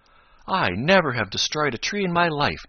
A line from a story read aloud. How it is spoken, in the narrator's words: declared Chatterer indignantly